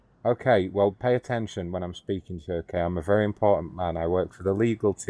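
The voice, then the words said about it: Speaks with a foreign accent. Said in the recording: “you have an accent.”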